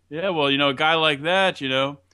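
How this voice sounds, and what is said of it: Put-on New Jersey accent. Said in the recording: “I think he even put in a little Jersey accent there.”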